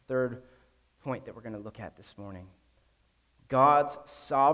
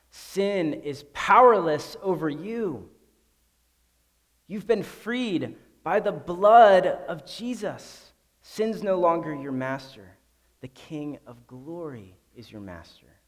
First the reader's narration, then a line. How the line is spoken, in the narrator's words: the cross shouts